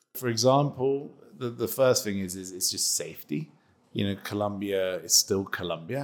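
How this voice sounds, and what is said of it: British accent. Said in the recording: “grown up in the UK, as you can tell from his accent”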